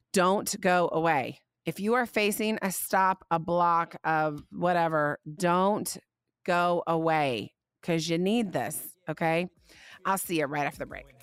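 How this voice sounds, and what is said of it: Slightly scratchy, hoarse voice. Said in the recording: “My voice is still a little scratchy ... bear with me on my scratchy voice ... I just don't sound 100% yet.”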